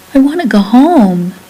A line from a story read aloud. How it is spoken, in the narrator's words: he begged